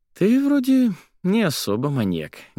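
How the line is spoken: Sad smile, sighing. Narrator (Russian): грустно улыбнулась Соня и вздохнула

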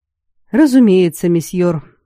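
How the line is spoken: Sigh. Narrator (Russian): вздохнул Аластур

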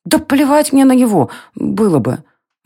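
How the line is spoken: Sobbing. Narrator (Russian): Варя всхлипнула

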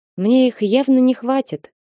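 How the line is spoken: Sad. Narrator (Russian): грустно сообщила Дениза псу

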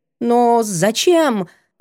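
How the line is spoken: Confused, forced out. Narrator (Russian): выдавила в замешательстве

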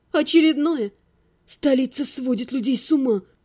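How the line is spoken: Muttering. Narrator (Russian): пробормотала

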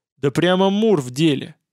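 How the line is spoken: Amused snort. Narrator (Russian): хмыкнул механик Аверса

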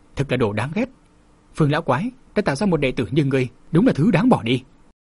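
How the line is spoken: Old man mutters. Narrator (Vietnamese): Lão nhân lẩm bẩm

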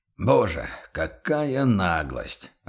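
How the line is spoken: Stunned mutter. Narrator (Russian): ошеломленно пробормотал торговец

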